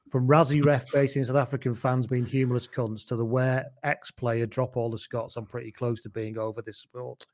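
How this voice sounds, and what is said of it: Out of breath while reading. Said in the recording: “I ran out of breath there.”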